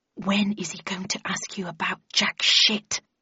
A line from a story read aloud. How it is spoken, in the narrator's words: asked Landon in an unsubtly loud whisper